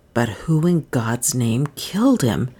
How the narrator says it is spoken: he muttered

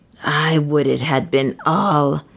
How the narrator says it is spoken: Soa muttered fiercely

